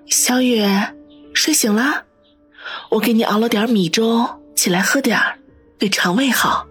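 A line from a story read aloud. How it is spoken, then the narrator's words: Gentle, smiling. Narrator (Chinese): 方心微微一笑，柔声的说道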